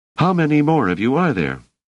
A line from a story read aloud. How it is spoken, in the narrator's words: asked Dors harshly